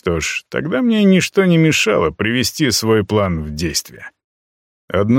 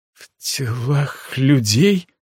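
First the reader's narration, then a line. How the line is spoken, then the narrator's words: Trembling repetition. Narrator (Russian): дрожащим голосом повторила Альха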